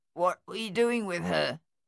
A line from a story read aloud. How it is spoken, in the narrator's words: Thaddeus asked Luther, his voice nasal and clotted